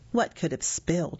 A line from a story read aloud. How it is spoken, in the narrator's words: he hissed back